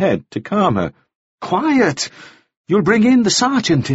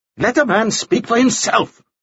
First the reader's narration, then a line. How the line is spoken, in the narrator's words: Nielsen snapped